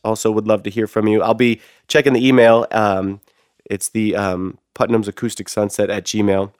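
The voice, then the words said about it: Lower, congested voice from a cold. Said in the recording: “you can tell from my voice, I have this like a cold ... my voice drops a little lower naturally whenever I get sick, and then I sound like a completely different person”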